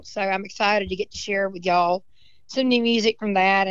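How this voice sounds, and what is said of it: Hoarse voice. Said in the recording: “my voice is hoarse because I've been hollering and singing all weekend”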